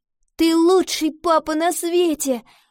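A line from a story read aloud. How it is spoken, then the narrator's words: Exclaimed. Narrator (Russian): воскликнула Ива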